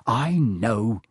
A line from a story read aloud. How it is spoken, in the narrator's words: Ron snapped